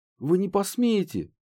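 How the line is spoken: Uncertain squeak. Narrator (Russian): неуверенно пискнул

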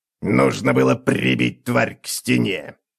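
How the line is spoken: Hissing hag. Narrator (Russian): прошипела Карга

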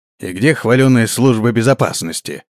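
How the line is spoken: Grumbling. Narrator (Russian): проворчал он

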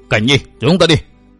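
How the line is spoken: Shouted urging. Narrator (Vietnamese): Vừa quát, hắn ta lên tiếng dục thiếu niên chột mắt

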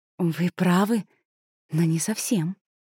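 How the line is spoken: Soft objection. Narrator (Russian): мягко возразила Матильда

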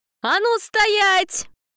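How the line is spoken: Very loud yell. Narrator (Russian): Заорала так, что машина стала как вкопанная

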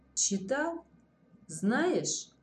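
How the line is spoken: Calm repetition. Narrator (Russian): повторяет он уже спокойно

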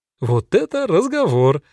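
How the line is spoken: Laughing. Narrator (Russian): рассмеялась Фрида

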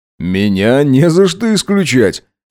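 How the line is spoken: Dismissive snort. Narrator (Russian): хмыкнул он

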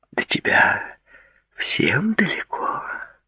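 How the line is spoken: Whispering young woman. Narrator (Russian): прошептала девушка

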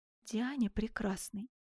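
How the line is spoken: Low voice. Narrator (Russian): произнес он вполголоса

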